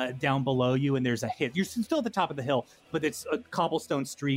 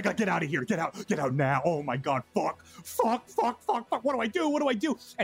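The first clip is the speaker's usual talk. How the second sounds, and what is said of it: Panicked shouting character voice. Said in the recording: “He's shouting.”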